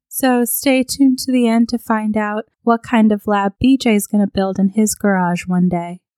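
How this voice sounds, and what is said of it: Sick, under-the-weather voice. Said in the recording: “apologize for my voice. I'm a little under the weather.”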